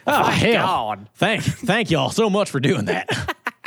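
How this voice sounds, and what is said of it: Deep Western American accent. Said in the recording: “Got, like a deep Western accent.”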